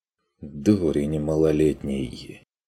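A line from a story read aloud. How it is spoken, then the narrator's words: Exhausted sigh. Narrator (Russian): вздохнул Стрик обессиленно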